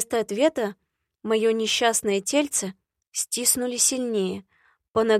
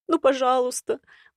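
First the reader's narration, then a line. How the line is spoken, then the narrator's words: Pleading. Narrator (Russian): взмолилась я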